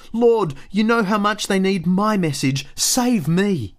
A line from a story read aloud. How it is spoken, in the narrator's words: pleaded